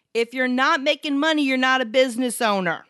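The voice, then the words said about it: Yelling, loud enough to hurt ears. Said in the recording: “Don't yell at me. That hurt my ears.”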